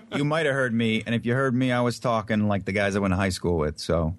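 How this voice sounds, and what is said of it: New Jersey accent. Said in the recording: “I'm from New Jersey, man. That's my real. That is my native accent.”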